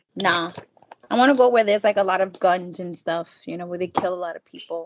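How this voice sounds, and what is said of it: Mixed Hispanic and New York accent. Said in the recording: “you have an accent. You have a little bit of an accent. ... I have like a New York accent ... I do have a Spanish accent. ... it's kind of a Hispanic and New Yorker mix you got going there.”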